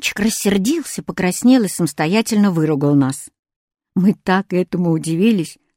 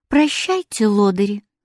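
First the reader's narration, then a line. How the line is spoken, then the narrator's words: Gentle, affectionate. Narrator (Russian): ласково сказала Катя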